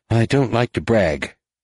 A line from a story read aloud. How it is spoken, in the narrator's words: Jaina said dryly